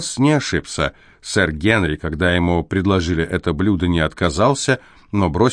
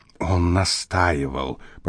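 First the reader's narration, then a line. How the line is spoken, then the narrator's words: Whisper. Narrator (Russian): прошептала Миллимент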